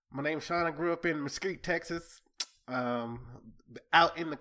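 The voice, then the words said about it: Thick Southern US accent. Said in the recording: “a quick little taste of your Southern accent ... You laid it on thicker last night, though.”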